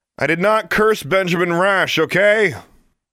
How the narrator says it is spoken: Into the sudden lull, Alexandra announced in a loud voice

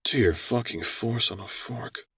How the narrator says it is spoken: Quinn muttered

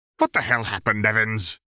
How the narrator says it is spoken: he demanded, his mustache twitching irritably

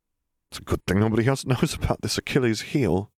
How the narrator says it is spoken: Harry laughed

